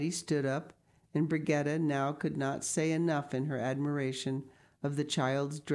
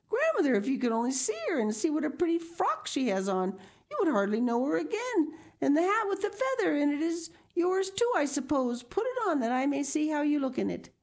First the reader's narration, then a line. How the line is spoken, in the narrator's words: exclaiming all the while